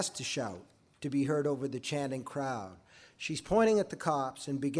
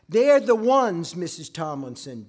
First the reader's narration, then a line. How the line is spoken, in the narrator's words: Gina shouts